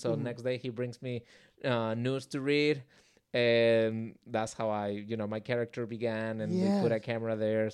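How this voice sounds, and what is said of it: Speaker's own accent. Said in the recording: “He loves my accent.”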